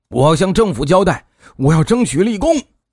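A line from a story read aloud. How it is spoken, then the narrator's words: Impatient shouting. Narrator (Chinese): 许在武急不可耐的喊声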